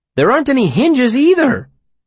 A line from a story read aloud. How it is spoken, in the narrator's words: Bast exclaimed